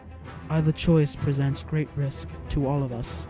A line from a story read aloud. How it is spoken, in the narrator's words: said softly